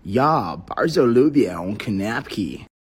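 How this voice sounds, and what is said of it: Polish spoken with American accent. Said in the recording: “Polish with an American accent is basically Simlish”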